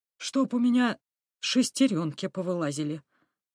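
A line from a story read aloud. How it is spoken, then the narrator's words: Amazed mutter. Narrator (Russian): пробормотал изумленный Петрович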